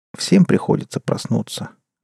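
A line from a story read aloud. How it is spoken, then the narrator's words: Sad speech. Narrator (Russian): грустно произнесла Полина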